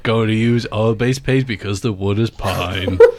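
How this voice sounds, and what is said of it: Imitates another person's voice. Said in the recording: “That's my Leave Marvin impression.”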